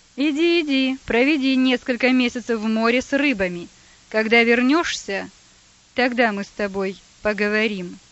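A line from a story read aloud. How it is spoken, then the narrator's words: Angry shout. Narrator (Russian): Злобно выкрикнул тот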